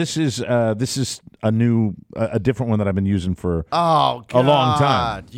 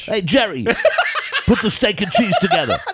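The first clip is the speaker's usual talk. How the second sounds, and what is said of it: Submarine sandwich commercial voice impression. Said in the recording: “Game changers are when I really have the voice and I'm going to do a lengthy conversation ... like a submarine sandwich commercial? ... Yes, exactly.”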